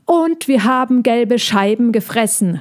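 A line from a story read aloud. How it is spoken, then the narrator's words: Calling out. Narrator (German): rief Piffi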